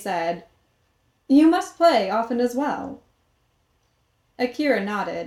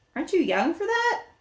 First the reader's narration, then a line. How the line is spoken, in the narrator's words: Akira chuckled